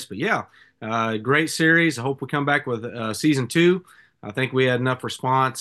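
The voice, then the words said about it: Hoarse, sick-sounding voice. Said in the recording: “I'm getting over a little bit of a cold here, so apologize for my voice.”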